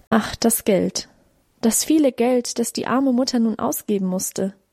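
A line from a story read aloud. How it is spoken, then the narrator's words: Sighing mother. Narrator (German): Mutter seufzte auch auf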